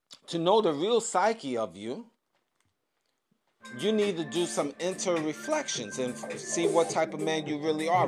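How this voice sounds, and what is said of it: Voice giving out, strained. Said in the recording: “Talk so much, I'm losing my voice.”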